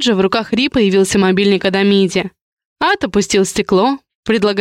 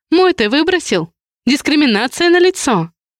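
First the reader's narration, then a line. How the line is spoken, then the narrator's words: Quiet laugh. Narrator (Russian): Адриан негромко рассмеялся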